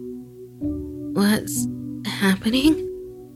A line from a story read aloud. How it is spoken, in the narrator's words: she groaned